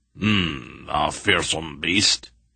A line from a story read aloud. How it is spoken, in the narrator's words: he murmured